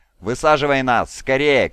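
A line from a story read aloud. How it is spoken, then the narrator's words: Shouted. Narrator (Russian): крикнул Локин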